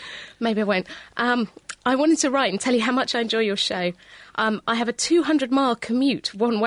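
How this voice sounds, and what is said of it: Usual voice. Nothing is said of it.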